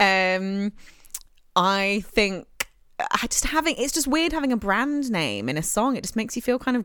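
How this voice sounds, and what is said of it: Usual voice. Nothing is said of it.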